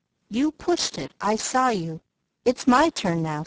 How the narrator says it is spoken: said Joe sharply

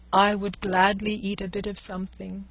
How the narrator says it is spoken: said Don Quixote

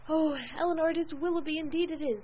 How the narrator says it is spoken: In the ecstasy of her feelings at that instant, she could not help exclaiming

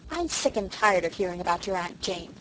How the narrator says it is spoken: said Felicity crossly

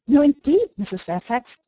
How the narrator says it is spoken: exclaimed, nettled

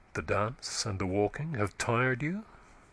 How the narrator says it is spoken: he said tenderly

